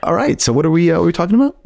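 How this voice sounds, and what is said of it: Deliberately lowered podcast voice. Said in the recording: “podcast voice. It's much lower.”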